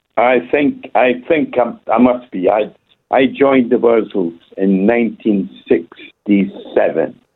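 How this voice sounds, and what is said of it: Scottish accent. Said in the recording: “sounds Scottish”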